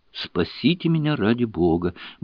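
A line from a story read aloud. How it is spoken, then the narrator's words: Desperate mumbling. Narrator (Russian): бормотал он с видом совершеннейшего отчаяния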